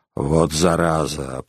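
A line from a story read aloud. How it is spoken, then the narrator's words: Grumbling. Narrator (Russian): проворчал коллектор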